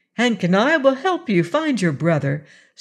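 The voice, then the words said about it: Cheerful bright delivery. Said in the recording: “in her most cheerful voice”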